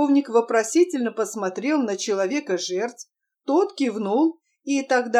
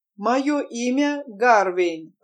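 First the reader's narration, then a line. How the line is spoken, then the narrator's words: Slow, deliberate. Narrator (Russian): раздельно и медленно проговорил человек-жертв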